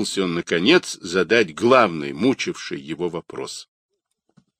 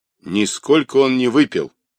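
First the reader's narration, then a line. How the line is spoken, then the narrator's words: Stern interruption. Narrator (Russian): строго перебила баба Вера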